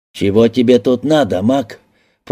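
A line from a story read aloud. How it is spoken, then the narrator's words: Stranger's growl. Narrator (Russian): прорычал незнакомец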